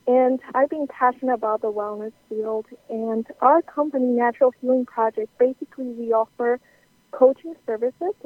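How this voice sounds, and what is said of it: South American accent. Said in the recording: “I grew up in South America. So many people question my accent”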